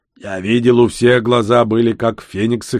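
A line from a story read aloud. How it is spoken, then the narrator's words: Orc's snort. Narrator (Russian): хмыкнул орк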